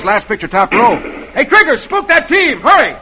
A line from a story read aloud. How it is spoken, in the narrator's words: Roy yells